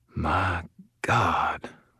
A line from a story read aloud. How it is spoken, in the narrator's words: Rawlins whispered again, his voice still stunned